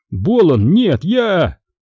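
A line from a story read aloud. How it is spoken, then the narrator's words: Horrified cry. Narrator (Russian): мафиози с ужасом вскрикнул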